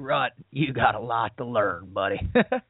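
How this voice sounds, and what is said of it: Imitated Louisiana southern drawl. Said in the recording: “Matt was from Louisiana. I'll never forget his southern drawl”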